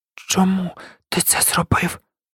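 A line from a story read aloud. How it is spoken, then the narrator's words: Quiet, trembling, near tears. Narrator (Ukrainian): Тихим, тремким голосом запитав, наче стримуючи сльози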